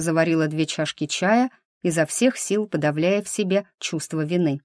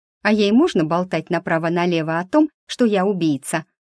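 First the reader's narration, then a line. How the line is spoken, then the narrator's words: Snapping. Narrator (Russian): огрызнулась Лена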